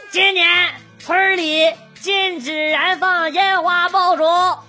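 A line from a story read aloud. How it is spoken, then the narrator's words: Blaring loudspeaker. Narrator (Chinese): 村里大广播啊，哇哇喊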